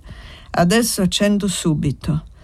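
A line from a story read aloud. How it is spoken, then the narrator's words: Sweet, slow voice. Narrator (Italian): Ella rispose con la sua voce dolce e le parole lente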